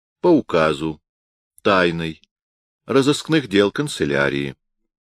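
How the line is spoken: Plain. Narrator (Russian): ответил офицер

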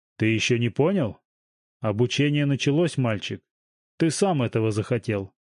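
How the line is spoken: Plain. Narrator (Russian): сказал Салтыков

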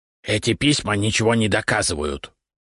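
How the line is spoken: Snorting. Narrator (Russian): фыркнул он

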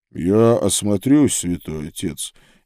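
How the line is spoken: Quiet speech. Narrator (Russian): негромко сказал брат Курвус

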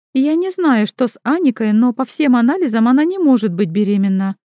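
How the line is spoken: Plain. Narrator (Russian): говорит Юлия Олеговна

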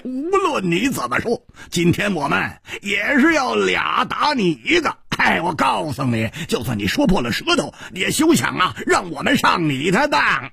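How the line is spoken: Laughing heartily. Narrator (Chinese): 胡铁花大笑着说

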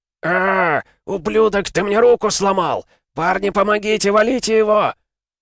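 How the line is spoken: Pained yell from below. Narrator (Russian): Заорало тело под моими ногами

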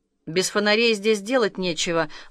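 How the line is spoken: Gloomy reply. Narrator (Russian): мрачно ответил Артем

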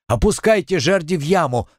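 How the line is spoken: Shouting. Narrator (Russian): закричал он

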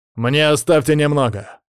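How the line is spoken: Growling. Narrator (Russian): рыкнул Колян

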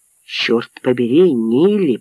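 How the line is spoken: Growled. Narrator (Russian): прорычал

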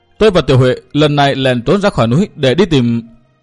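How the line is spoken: Trembling voice. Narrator (Vietnamese): Kỳ Anh cất tiếng run run nói tiếp

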